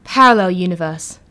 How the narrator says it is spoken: John said, sighing

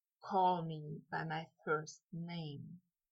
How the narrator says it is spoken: Malfoy whispered

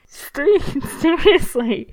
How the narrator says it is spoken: Ed says, shoulders shaking with laughter

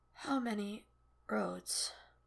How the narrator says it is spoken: He wheezes in one deep breath, and with the shadow of his old smile, still charming, still worldly wise and a little sad, whispers

